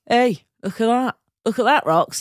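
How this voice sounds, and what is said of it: Put-on Northern English accent. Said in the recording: “what's that voice? ... It's your Northern Gallagher accent.”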